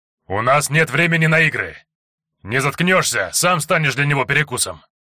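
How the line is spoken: Leader's loud bark. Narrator (Russian): Гаркнул главный

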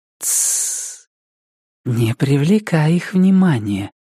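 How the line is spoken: Woman whispering. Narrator (Russian): прошептала женщина

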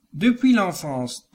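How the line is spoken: Plain. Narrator (French): dit-il

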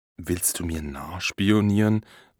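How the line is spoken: Murmuring. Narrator (German): murmelt er

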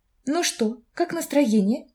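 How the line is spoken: Quiet question. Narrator (Russian): тихо спросила Филония

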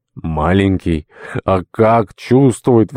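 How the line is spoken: Delighted exclamation. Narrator (Russian): воскликнул в восторге Ахилла

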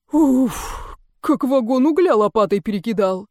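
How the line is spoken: Exhaled breathless remark. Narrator (Russian): выдохнул

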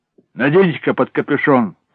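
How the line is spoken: Shouted. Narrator (Russian): прокричал

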